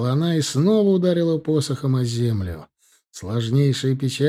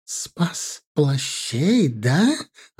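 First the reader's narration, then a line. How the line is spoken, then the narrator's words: Insane voice, through teeth. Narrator (Russian): абсолютно безумным голосом, процедила Вселена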